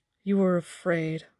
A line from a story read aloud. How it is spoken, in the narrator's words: Moraine said grimly